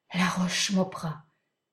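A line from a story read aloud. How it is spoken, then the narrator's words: Trembling frightened murmur. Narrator (French): murmura-t-elle en frissonnant de la tête aux pieds, comme une biche qui entend hurler les loups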